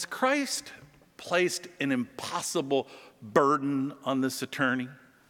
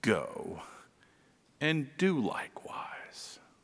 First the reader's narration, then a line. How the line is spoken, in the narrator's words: Jesus whispers